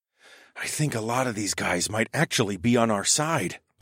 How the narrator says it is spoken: I whispered

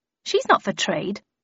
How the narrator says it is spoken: I said firmly

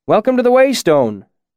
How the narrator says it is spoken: the innkeeper called out from behind the bar

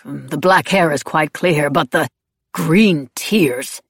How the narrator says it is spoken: Terence scoffed

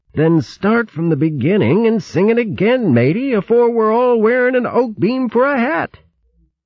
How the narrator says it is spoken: Urgently, he muttered

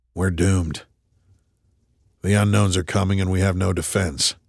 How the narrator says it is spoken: Tripp grunted

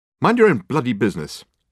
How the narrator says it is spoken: snapped Michael savagely

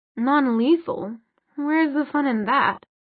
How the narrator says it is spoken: Sebastian purred

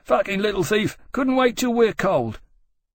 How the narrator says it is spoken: panting, and shouted

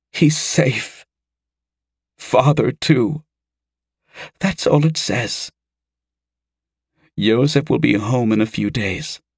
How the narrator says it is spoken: Mera choked back tears enough to say

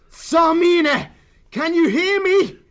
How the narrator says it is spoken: Martin roared out above the voice of the howling blade

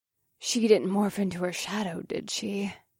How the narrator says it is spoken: Nyx asked in a lethargic voice

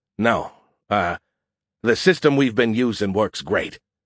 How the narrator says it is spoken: groaned

